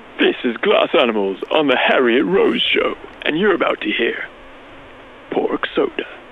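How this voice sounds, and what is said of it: Exaggerated radio announcer voice. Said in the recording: “I've got a radio voice ... He's got a voice for the radio ... Please do your best radio voice”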